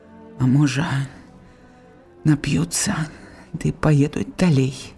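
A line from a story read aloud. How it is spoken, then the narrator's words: Quiet absent-minded repeating. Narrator (Belarusian): падумала Степаніда, не ў прыцям ціхенька паўтараючы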